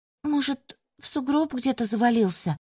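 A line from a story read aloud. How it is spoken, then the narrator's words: Uncertain guess. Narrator (Russian): неуверенно предположила Ленкина подружка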